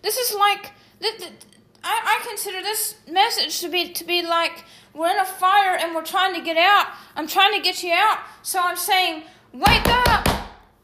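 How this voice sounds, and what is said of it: Loud, yelling delivery. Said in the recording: “I know I'm yelling ... I'm being a little louder than I usually am when I'm yelling.”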